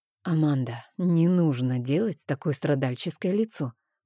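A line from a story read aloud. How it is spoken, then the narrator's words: Whisper in ear. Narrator (Russian): прошептал мне Рейн на ушко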